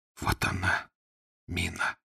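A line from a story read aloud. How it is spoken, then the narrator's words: Barely audible, excited hoarse voice. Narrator (Russian): едва слышно севшим от волнения голосом сказал Фондорин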